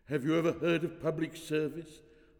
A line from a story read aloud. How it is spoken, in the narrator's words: asked Struthion in a choked voice, laced with piety